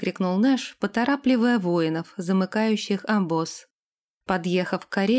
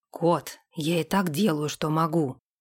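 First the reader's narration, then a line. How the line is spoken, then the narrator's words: Grumbled. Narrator (Russian): буркнул капитан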